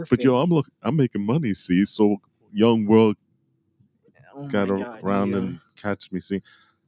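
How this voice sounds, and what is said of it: Imitates another person's voice. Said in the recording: “Do that voice perfect. ... That's pretty good, right?”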